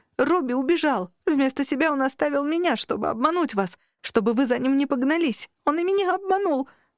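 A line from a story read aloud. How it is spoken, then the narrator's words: Child sobbing and wailing. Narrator (Russian): рыдал и вопил ребенок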